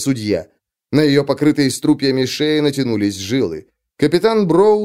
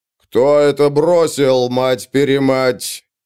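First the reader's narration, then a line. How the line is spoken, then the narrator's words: Furious roar. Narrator (Russian): проревел Броуд, перенимая ярость судьи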